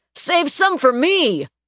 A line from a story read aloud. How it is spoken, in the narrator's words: he shouted